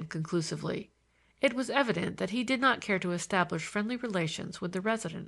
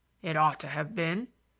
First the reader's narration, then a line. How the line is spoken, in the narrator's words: said the man gruffly